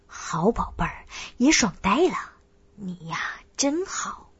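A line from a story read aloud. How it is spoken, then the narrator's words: Trembling, breathless panting. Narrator (Chinese): 我大力颤抖，喘息道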